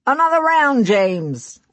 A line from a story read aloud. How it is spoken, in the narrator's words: From across the room, the bartender called out